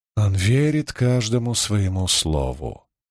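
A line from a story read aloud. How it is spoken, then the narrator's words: Sigh. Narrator (Russian): вздохнула Аннаура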